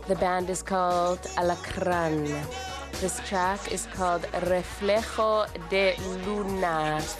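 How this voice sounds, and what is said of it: Fake Spanish accent. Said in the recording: “That is my Spanish accent, my fake Spanish accent.”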